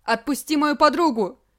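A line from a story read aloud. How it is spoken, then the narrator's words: Boy shouting. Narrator (Russian): закричал мальчик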